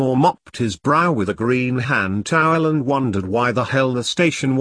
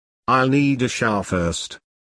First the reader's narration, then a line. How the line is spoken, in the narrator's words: he said